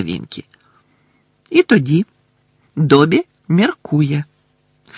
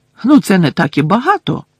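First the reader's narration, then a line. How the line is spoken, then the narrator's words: Indignant exclamation. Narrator (Ukrainian): обурено вигукнула Герміона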